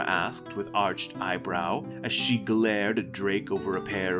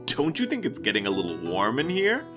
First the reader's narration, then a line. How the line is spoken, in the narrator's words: Drake sputtered